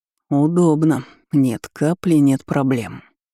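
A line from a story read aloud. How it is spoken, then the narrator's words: Through gritted teeth. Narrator (Russian): процедил Карпов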